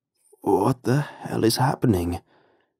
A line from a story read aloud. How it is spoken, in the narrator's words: he asked, his voice cracked and hoarse